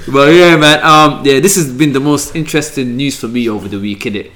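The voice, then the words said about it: South London accent. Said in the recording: “I'm from South London ... he's definitely from South ... Bagel King vernacular”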